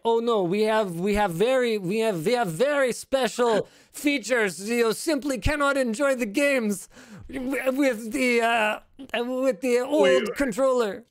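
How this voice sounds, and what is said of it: Put-on vaguely Russian or German accent. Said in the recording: “I don't know what accent that is. ... Russian to German?”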